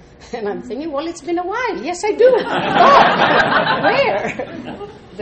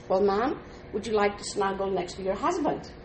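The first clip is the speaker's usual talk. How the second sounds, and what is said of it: Heavy English accent. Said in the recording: “this man with the English heavy accent”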